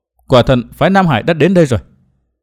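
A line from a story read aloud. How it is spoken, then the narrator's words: Muttering. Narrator (Vietnamese): Đinh Linh lẩm bẩm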